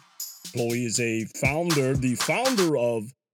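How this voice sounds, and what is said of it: Put-on exaggerated international voice. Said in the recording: “why I do that voice. That's my international annoying voice”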